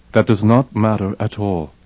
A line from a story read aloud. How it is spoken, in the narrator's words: said Andrew calmly